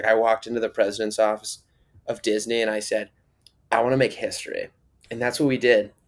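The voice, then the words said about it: Imitates another person's voice. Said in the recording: “that was a really good impression ... That was actually a really good impression ... my Debbie Ryan impressions”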